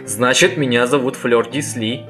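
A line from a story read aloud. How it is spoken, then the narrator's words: Merry laughter. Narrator (Russian): весело рассмеявшись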